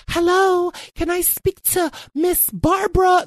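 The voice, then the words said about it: Put-on polite professional lady's voice. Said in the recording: “put on a professional voice ... my professional voice was really like a young lady or an older”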